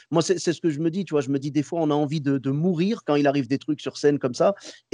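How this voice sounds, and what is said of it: Moroccan-American accent speaking French. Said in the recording (French): “J'adore ton accent ... c'est l'accent marocain, marocain-américain ... l'accent amarocain”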